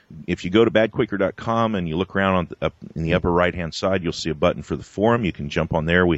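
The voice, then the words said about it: Deep polished radio voice. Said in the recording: “you have by far the coolest radio voice ... The coolest radio voice ever!”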